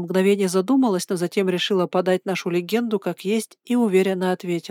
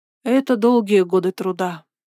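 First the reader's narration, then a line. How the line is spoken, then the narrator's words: Sighing. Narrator (Russian): вздохнула она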